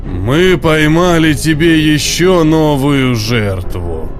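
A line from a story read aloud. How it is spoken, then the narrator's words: Deep bass voice. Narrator (Russian): пробасил монстр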